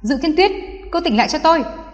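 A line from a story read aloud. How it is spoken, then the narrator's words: Cold shout. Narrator (Vietnamese): quát lạnh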